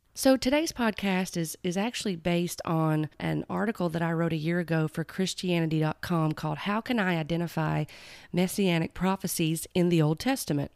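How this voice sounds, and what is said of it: Raspy voice. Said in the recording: “I have been battling a cold the past several days, and it has affected my vocal cords ... the raspy voice. It's going to be a little different”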